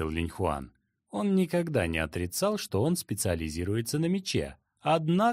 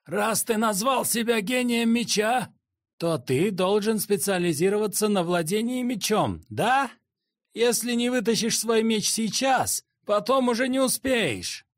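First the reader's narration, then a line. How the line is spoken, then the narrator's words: Shouting. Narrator (Russian): Безумный Тигр закричал Линьхуану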